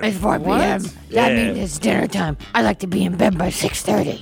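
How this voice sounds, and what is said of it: Batman-style character voice. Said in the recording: “I'm doing my Batman voice.”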